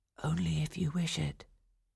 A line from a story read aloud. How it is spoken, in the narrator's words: whispered to her